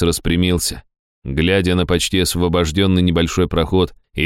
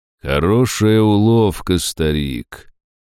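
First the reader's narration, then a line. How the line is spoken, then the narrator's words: Muffled and mocking. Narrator (Russian): проговорил гость глухо и насмешливо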